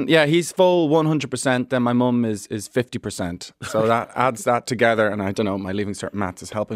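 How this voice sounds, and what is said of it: Usual voice. Nothing is said of it.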